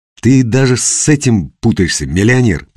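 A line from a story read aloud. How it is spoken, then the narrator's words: Forced through clenched teeth. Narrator (Russian): процедил Костя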